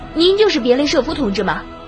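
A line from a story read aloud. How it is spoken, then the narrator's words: Eager young man asking. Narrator (Chinese): 年轻小伙子急忙…迫不及待地问道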